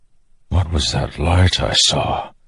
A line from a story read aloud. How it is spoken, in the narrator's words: he whispered